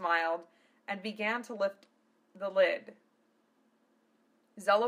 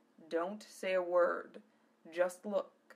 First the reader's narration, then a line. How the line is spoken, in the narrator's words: he whispered